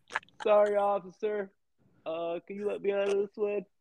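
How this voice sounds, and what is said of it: Imitates another person's voice. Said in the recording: “Is that how I sound? Yeah, that's a really good impression.”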